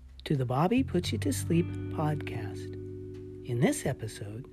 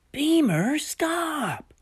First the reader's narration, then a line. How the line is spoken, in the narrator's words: Flicker yelled